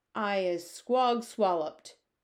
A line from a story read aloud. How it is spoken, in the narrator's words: bellowed the bone cruncher